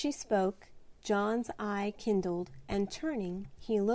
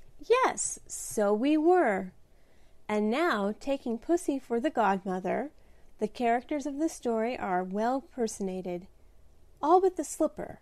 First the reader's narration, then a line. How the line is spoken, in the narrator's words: said Di, laughing, as she thought of the many times they had played it together years ago